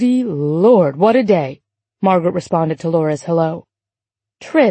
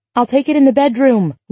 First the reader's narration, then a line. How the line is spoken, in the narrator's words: Laura shouted back